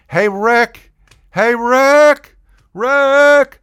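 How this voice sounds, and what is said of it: Yelling. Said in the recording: “I'm yelling up through the balcony ... And I'm yelling,”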